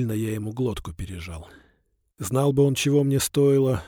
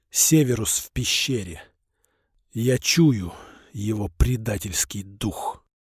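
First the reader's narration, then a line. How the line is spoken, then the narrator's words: Old man's wheeze. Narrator (Russian): Старик захрипел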